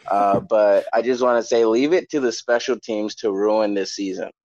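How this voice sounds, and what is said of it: Hoarse, strained voice. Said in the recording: “I lost my voice here from screaming into a pillow”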